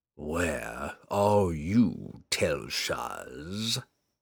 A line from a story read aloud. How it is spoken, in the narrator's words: the demon hissed, expecting news of the relic